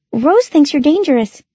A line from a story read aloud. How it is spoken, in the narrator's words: she blurted out nervously